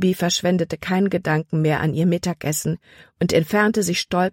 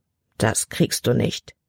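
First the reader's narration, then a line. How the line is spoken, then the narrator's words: Murmuring. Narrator (German): murmelte sie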